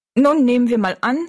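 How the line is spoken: Plain. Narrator (German): sagte Jings

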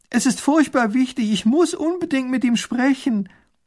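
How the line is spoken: Calling after. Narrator (German): ruft hinter der Kutsche her

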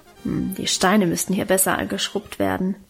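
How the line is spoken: Muttering to herself. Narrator (German): brummte sie vor sich hin

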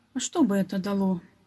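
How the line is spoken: Sad boy answers. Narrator (Russian): грустно ответил мальчик

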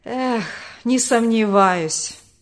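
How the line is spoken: Bitter sigh, father. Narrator (Russian): горько вздохнул отец

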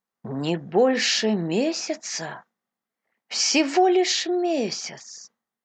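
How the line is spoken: Heavy-hearted repeating. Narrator (Russian): повторял Кристи с тяжелым сердцем

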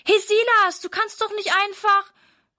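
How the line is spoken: Calling after someone. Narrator (German): ruft Sarah ihm hinterher

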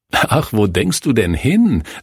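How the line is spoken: Laughing. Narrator (German): lachte Kurt

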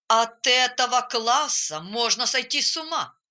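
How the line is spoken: Grumbling. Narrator (Russian): разворчался он

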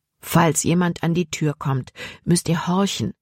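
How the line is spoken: Plain. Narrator (German): sagte Dr

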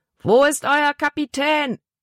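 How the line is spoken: Big man bellowing. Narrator (German): brüllte der große Mann

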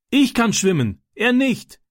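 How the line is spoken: Calling back. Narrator (German): rief Francis zurück

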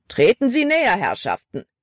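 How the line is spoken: Called out. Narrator (German): rief Caleb

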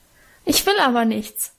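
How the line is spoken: Bursting into sobs. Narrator (German): schluchzte los

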